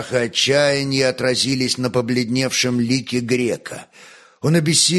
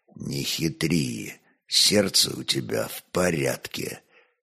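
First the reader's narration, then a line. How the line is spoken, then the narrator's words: Quiet. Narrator (Russian): так же негромко молвил князь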